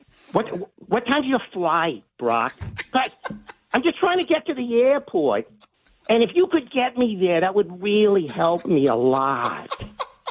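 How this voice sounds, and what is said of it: Imitates another person's voice. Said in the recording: “best impression ... He's like a male Edith Bunker”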